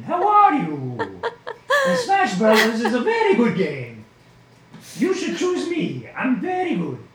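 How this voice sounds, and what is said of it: Terrible Mario character voice impression. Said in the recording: “his terrible impression of Mario... Terrible impression.”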